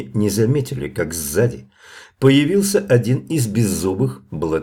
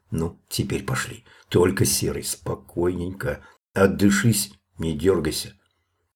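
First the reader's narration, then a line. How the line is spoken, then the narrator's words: Quiet. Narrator (Russian): Мишка сказал тихо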